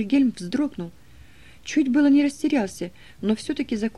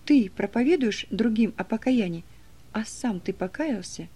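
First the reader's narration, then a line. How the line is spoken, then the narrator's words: Quiet whisper. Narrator (Russian): тихий голос, который ему шепнул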